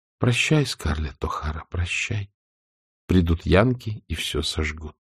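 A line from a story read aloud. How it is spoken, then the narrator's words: Inner whisper. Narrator (Russian): кровная часть ее души шептала ей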